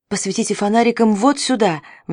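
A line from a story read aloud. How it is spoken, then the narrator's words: Sudden exclamation. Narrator (Russian): внезапно воскликнул Лятуш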